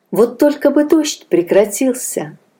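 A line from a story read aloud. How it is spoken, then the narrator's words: Sighing. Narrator (Russian): вздохнула Анна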